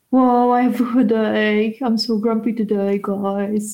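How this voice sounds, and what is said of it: Imitates another person's voice. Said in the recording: “your best impression of Jack ... that was a very poor impression of Jack”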